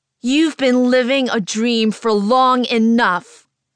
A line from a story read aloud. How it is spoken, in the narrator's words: I yell at the cameras between bursts of maniacal laughter